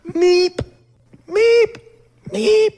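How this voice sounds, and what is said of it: Imitation of a creature's sounds. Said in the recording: “the treble impersonation”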